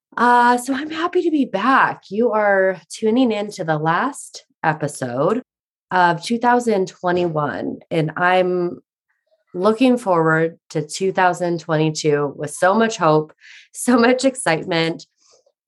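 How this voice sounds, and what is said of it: Voice affected by a cold. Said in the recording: “I am coming off the nastiest cold ... if my voice sounds a bit different, it is.”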